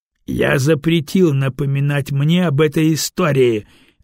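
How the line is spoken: Barked. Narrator (Russian): рявкнул Серый

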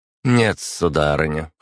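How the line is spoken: Cold reply. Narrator (Russian): холодно ответила Агата

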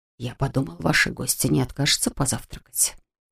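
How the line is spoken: Whisper. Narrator (Russian): шепнул дворецкий

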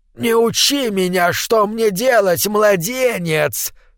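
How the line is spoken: Hiss. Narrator (Russian): прошипел он

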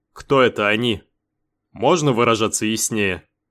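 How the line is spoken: Grumbling. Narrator (Russian): Пробурчал Бен

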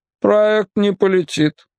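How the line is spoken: Flat colorless voice. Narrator (Russian): бесцветным голосом сообщил Ефросиний Штульц

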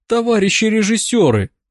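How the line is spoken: Pleading. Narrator (Russian): взмолилась Дуняша

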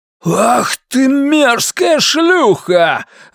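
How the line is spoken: Roar. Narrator (Russian): взревел он

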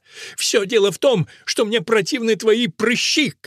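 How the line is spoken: Shouted. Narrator (Russian): крикнул Фусия

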